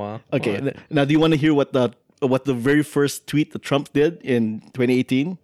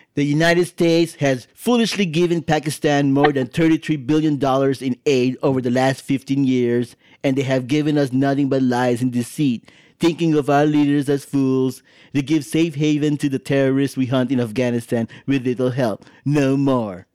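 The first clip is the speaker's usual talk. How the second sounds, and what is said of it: Imitates another person's voice. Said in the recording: “I should do it in my Trump voice.”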